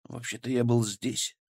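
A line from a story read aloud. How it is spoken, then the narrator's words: Quiet. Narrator (Russian): сказал я тихо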